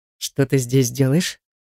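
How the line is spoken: Stern question. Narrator (Russian): Строго спрашивает у меня Редгер

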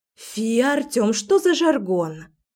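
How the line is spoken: Exclaiming. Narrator (Russian): Воскликнула Лера

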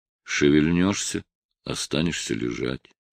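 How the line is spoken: Calm warning. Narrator (Russian): по-прежнему спокойно предупредил

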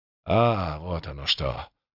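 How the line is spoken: Muttered. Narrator (Russian): пробормотал волшебник

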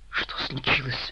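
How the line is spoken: Whisper. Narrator (Russian): прошептала Анжелика

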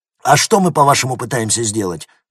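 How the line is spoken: Angry officer. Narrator (Russian): зло спросил один из офицеров

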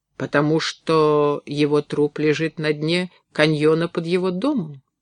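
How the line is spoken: Gentle question. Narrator (Russian): мягко спросил

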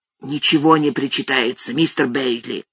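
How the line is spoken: Hoarse whisper. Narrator (Russian): произнес хриплым шепотом

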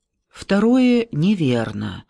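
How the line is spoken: Very calm objection. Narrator (Russian): очень спокойно возразил Шона

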